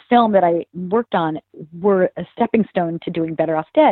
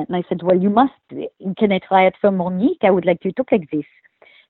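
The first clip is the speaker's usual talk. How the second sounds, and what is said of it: Put-on French accent. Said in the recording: “I could do this accent... I actually used my accent... a French accent”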